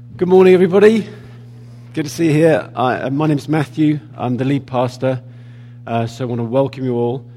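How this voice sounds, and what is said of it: Unwell, strained voice. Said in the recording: “I'm a tad under the weather at the moment, as you can probably tell, so I'm hoping my voice is going to hold out”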